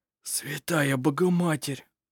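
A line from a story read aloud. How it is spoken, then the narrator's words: Whisper. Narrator (Russian): прошептал жено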